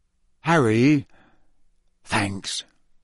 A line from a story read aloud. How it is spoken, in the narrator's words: George muttered